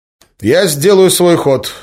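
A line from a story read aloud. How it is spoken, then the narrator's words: Overly loud. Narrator (Russian): излишне громко проговорил он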